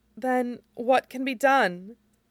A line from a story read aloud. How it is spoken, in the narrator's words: Jiang Yanli asked tearfully